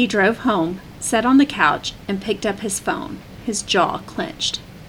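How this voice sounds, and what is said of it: Usual voice. Nothing is said of it.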